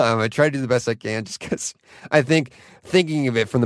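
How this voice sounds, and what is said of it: Usual voice. Nothing is said of it.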